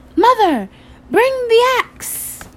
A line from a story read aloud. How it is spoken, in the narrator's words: he cried